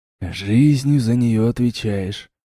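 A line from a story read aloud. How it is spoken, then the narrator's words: Whisper. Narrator (Russian): прошептал я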